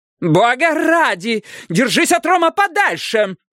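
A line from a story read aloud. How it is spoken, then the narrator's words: Yelling. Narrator (Russian): заорала Лукреция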